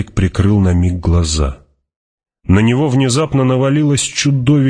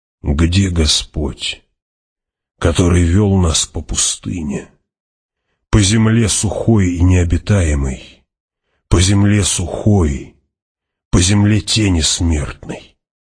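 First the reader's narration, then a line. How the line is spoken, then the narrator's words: Mutter. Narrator (Russian): пробормотал он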